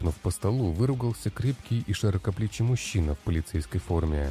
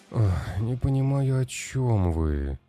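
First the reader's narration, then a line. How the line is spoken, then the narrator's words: Weary sigh. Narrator (Russian): устало вздохнул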